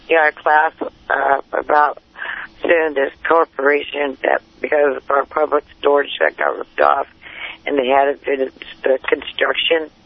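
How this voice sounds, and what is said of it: Hoarse, hard-to-hear voice. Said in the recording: “it's a little hard to hear you ... My voice is a little hoarse”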